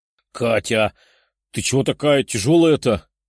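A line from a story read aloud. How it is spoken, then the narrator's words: Strained grumbling. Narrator (Russian): ворчала Лиза, неся блондинку на руках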